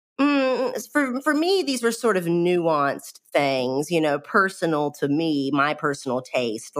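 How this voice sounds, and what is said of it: Strong country accent. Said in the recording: “I'm the person in the room with the crazy accent ... every bit as country sounding as me”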